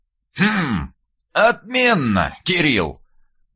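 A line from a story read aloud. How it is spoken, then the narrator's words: Thoughtful drawl, old man. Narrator (Russian): задумчиво протянул дед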